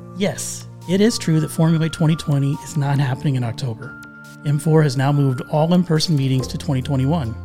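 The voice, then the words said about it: Peppy, cheerful upbeat voice. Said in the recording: “put on your happy voice”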